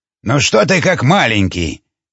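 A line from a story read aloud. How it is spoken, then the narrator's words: Grumbling. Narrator (Russian): проворчал Андрей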